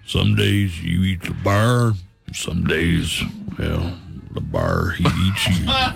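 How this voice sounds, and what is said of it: Imitates another person's voice. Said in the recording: “my Sam Elliott impersonation? ... Oh, that was good. ... It's not good. Just funny hearing you say it.”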